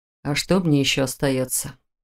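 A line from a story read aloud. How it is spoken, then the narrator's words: Male sigh. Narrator (Russian): вздохнул он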